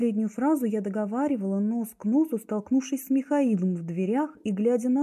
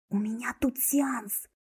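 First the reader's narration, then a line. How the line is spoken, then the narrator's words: Quick whisper. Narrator (Russian): шепнула подруга, не прерываясь надолго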